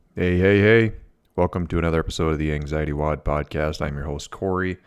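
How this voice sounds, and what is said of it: Congested, stuffy-nosed voice. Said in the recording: “I have a cold, so I apologize if I sound a little funny, a little plugged up, a little stuffy”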